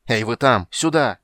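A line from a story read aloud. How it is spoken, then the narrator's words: Shouted. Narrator (Russian): крикнул Карамон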